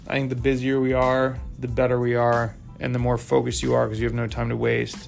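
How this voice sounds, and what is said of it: Dry, cracking voice. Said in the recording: “my voice is super dry from Utah, apparently it's getting all cracky”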